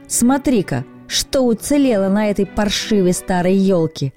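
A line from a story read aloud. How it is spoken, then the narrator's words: Shout. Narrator (Russian): крикнул он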